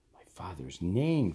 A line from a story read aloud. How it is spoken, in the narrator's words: Thomas gasped